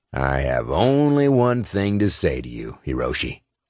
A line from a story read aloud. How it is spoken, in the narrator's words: Cross said in a gravelly tone